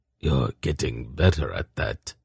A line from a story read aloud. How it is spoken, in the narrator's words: Zakath said quietly